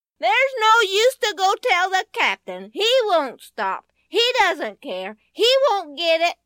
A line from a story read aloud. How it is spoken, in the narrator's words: Benny was tagging along behind her all the way, hollering